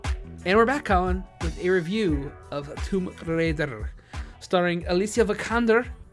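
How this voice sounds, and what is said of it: Put-on accent, sounds Scottish. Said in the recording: “I'm doing an accent. ... You're doing an accent. You sound like a Scot. ... I think I was going for Russian, but I guess not. I guess it didn't work.”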